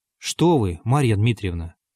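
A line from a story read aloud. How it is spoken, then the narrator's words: Plain. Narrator (Russian): спросил Бутлер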